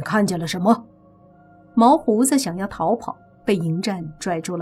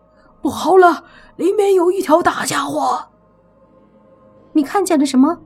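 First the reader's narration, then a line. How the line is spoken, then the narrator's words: Panicked shout. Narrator (Chinese): 惊慌失措地喊道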